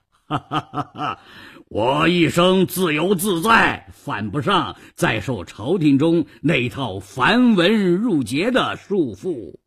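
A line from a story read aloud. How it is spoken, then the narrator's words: Laughing. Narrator (Chinese): 裘然客笑道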